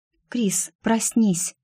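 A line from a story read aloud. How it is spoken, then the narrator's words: Whispering. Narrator (Russian): шептал голос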